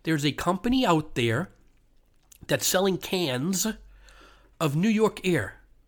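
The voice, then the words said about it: Deliberately slow, emphatic speech. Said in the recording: “I'm going to say that slowly.”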